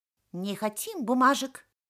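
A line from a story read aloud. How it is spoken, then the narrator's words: Squeaking chorus. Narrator (Russian): пищали все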